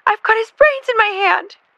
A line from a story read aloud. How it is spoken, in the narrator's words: Jackie screamed